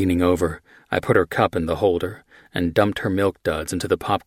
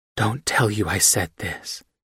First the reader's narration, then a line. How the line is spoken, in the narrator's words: she whispered in my ear